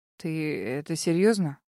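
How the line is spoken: Hoarse male question. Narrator (Russian): хрипло спросил мужчина

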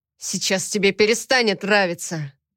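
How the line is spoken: Growling. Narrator (Russian): Зарычал

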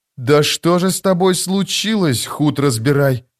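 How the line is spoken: Breathed out. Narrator (Russian): выдохнул Кальп

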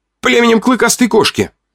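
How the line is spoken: Loud shout. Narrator (Russian): выкрикнул я громче, чем следовало

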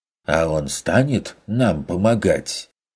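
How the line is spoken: Dismissive snort. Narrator (Russian): пренебрежительно хмыкнул Феликс

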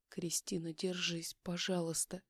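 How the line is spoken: Whisper. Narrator (Russian): прошептала я

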